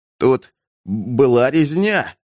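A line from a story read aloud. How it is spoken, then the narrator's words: Trembling voice. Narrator (Russian): сказал Эмид дрожащим голосом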